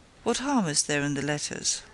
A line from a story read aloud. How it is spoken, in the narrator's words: asked